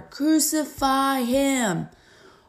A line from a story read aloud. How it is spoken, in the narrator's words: they shouted all the louder